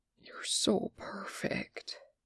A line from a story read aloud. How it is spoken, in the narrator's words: Ray breathed